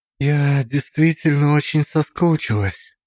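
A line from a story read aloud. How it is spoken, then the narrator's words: Quiet speech. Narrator (Russian): сказала тихо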